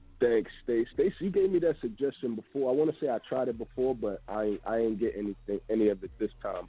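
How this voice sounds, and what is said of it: Congested, nasal voice. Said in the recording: “I was even more congested like yesterday and the day before... with my nose being congested, you hear it in my voice”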